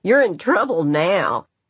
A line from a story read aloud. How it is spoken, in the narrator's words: Patsy cried